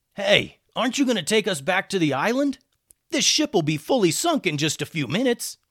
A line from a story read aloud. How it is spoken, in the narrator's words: One of the bandits called out